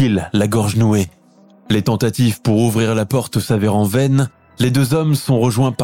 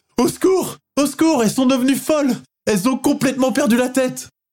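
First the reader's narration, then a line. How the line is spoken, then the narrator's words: Frenzied screaming. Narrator (French): hurle-t-elle comme une possédée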